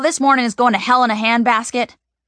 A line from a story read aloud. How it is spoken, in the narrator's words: Mom shouts